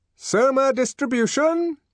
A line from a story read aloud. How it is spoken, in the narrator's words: shouted a loud voice